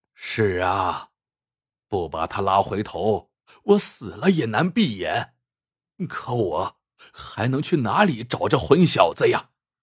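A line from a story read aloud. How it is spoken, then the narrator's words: Hesitant. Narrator (Chinese): 阿虎迟疑了一下，说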